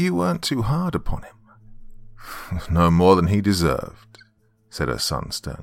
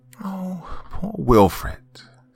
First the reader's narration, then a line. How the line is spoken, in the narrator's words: sighed Mrs